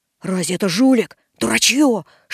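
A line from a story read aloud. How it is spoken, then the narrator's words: Whisper. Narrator (Russian): шепнул Драп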